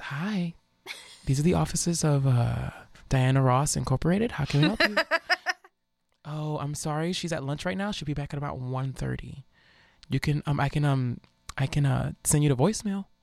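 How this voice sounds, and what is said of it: Put-on stereotypically white receptionist voice. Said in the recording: “I can put on my whitest voice.”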